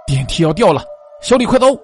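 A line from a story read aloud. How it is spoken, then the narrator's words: Roaring shout. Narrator (Chinese): 我狂吼一声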